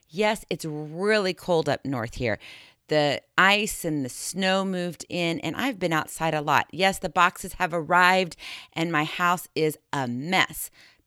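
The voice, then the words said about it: Rough, scratchy hoarse voice. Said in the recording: “My voice is a little bit rugged ... oh, my voice, yeah, well, a little scratchy”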